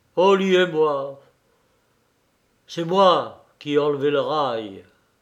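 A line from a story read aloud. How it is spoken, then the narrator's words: Sad, trembling voice. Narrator (French): Basile tristement d'une voix tremblante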